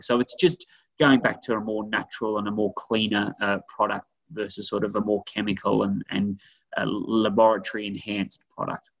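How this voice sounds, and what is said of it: Speaks with a noticeable accent. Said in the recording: “I love the way you say laboratory. I love that accent of yours.”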